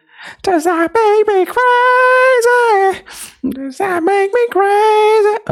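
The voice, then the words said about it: Imitates another person's singing voice. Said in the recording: “that was my CeeLo Green impression”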